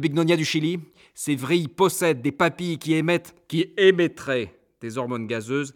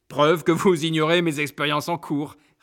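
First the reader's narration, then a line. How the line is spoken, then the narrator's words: Sneering. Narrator (French): ricane-t-il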